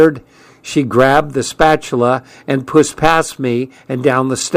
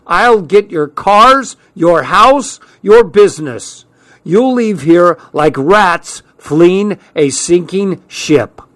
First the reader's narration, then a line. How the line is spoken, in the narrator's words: shouting